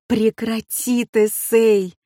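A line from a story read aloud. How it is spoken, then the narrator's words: Frantic scream, full force. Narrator (Russian): истошно завопила я, что было мочи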